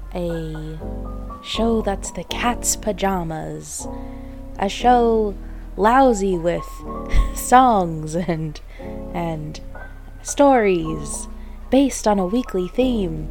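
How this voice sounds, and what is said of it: 1920s speakeasy jazz baby voice. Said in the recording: “My sultry jazz voice that I was attempting turned into like a speakeasy, like 1920s jazz baby voice.”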